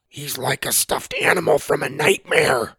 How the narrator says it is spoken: Sawyer whispered

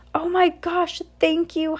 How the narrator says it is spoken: Heidi cried

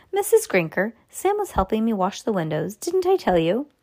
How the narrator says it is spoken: calmly said

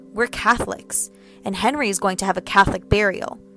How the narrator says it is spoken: grandmother said firmly

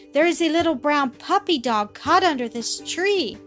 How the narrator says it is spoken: cried Millie

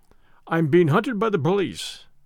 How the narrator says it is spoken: I said

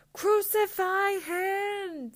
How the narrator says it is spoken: they shouted

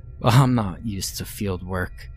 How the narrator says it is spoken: he chuckled

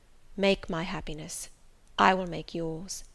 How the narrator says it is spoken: said he, in his deepest tone, speaking in my ear

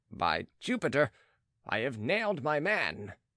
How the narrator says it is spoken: exclaimed the visitor

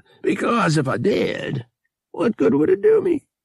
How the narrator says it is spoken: He added, emitting a wheezing chuckle

